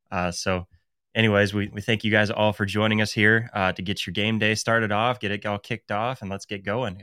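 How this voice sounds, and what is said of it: Nasal, slightly slurred congested voice. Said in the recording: “I'm slurring my words ... I'm a little like down, kind of under the weather a little bit. I got allergies kicking my butt ... I might sound a little nasally”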